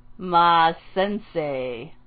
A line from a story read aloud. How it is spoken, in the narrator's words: Kakashi drawled